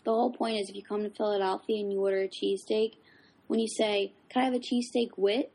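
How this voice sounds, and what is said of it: South Philly accent. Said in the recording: “My South Philly accent.”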